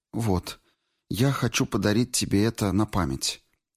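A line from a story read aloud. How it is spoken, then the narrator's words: Timid. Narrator (Russian): робко сказала она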